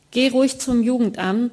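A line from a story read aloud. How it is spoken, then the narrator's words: Loud and firm. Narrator (German): sagte sie laut und mit fester Stimme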